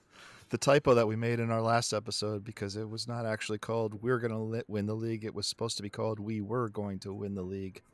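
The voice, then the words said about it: Hoarse voice. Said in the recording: “coming to you with a hoarse voice”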